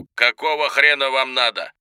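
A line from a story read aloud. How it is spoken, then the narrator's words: Barked into the phone. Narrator (Russian): Тот ответил почти сразу, рявкнув в трубку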